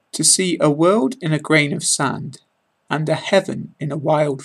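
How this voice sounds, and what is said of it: British English accent. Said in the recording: “British accent”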